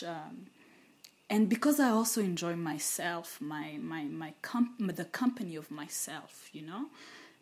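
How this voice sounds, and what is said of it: Excited, animated speaking voice. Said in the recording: “I talk like a very excited person”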